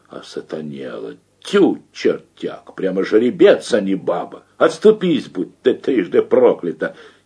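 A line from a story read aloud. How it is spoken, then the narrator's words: Astonished muttering. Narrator (Russian): Любешкин, ослепленный мощью и белизной Марининого тела, пораженно бормоча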